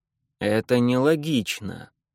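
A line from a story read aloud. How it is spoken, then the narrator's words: Grumbling. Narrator (Russian): ворчал доктор Шрек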